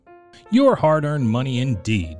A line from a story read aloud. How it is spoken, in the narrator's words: scoffed Dorothy